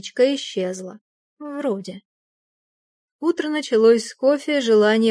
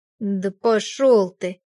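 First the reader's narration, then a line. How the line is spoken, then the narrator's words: Grumbling aloud. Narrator (Russian): пробурчала я вслух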